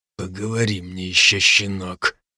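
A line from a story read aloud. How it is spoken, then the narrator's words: Barely audible. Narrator (Russian): еле слышно произнес Фердинанд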